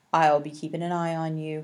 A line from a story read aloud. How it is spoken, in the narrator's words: he said